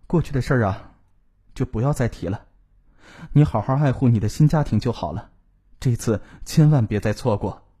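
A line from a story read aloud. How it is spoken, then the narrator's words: Sighing after a pause. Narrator (Chinese): 冯雅丽沉默了一会儿，叹息着说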